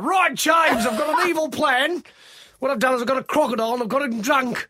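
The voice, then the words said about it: Put-on aggressive Australian accent. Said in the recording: “Australian accent, they're quite like aggressive”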